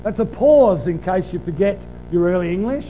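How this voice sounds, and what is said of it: Sarcastic tone. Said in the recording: “say that sarcastically,”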